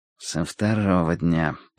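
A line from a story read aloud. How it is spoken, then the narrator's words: Muttered. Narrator (Russian): пробормотал Хардвик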